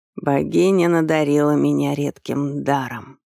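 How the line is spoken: Hoarse. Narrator (Russian): сипло произнес он

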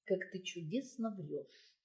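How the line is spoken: Plain. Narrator (Russian): сказал Лангепас

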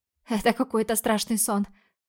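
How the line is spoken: Hoarse wheeze. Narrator (Russian): прохрипела я

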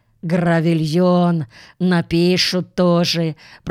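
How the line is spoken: Grumbling. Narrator (Russian): пробурчала она

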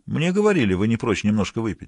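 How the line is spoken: Plain. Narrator (Russian): сказал Стилфорд

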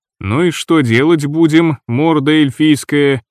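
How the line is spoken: Gloomy question. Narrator (Russian): мрачно спросил я

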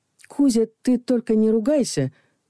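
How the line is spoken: Hesitant. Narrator (Russian): неуверенно произнесла я

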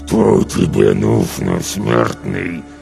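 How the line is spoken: Growl through tight lips. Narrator (Russian): прорычал он, стараясь не разжимать губ

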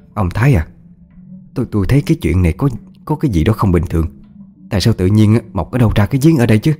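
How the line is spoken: Stammering, frightened. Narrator (Vietnamese): Bà hơi tái mặt, lắp bắp nói với chồng

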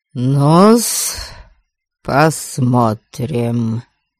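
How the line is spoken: Grunting grumble. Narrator (Russian): С кряхтением проворчала Бальд

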